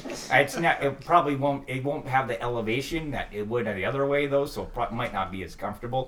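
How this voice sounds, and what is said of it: Minnesotan accent. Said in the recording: “Minnesotan accent”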